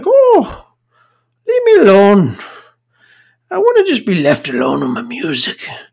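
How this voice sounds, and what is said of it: Attempted Irish accent. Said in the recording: “I can't do an Irish accent.”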